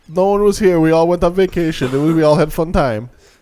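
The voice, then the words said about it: Put-on German accent. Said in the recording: “I don't know what accent that was. ... The German accent”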